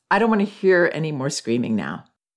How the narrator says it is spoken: I said in an even tone

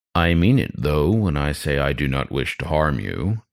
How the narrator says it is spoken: spoke, lowly rumbling

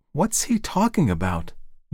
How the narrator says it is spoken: Margaret asked nervously

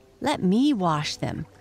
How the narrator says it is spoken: begged Violet

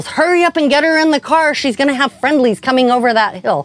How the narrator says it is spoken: His training officer yells

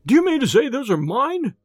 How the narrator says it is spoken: he cried

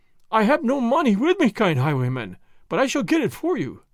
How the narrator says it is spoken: the dealer cried

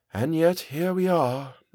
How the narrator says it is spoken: sighed

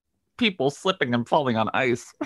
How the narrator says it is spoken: giggles uncomfortably and says

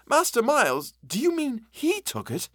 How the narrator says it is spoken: I gasped

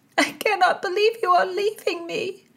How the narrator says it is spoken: moaned a glassy-eyed Mary

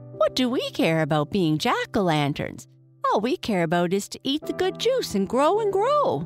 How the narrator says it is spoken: all his little brothers and sisters laughed and said

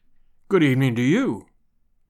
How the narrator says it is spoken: he said gravely

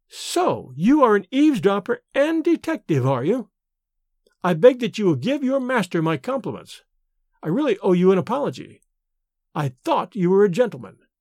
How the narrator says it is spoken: she exclaimed with a withering emphasis

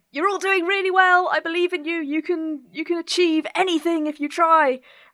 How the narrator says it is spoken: I'm going to start yelling

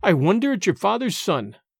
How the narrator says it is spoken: cried Allan sternly

